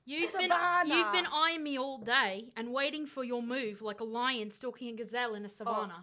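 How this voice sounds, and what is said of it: Put-on Australian accent. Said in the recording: “the only Australian accent I know ... that is way better than what, way better ... To get into the Australian, all you have to say is no.”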